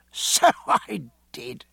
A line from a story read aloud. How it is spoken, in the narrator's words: said, laughing happily